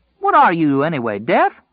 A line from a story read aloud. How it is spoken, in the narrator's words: Tom called indignantly